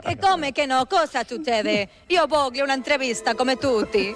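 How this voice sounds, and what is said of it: Put-on Neapolitan Italian accent. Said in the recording (Spanish): “La napolitana. El acento, per favore.”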